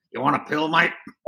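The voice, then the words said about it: Imitates another person's voice. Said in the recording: “This is my Shannon Knoll impersonation.”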